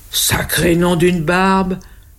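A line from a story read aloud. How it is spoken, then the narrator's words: Loud exclamation. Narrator (French): s'exclame le Père Noël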